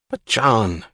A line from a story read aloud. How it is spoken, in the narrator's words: cried Mulligan